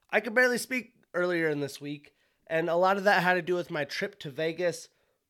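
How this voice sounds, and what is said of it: Raspy, hoarse voice. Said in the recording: “Got a little bit of a raspy, hoarse voice still from Vegas.”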